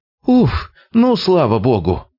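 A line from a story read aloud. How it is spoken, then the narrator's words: Thin wary exclamation. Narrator (Russian): С опаской неожиданно тонким голоском воскликнул он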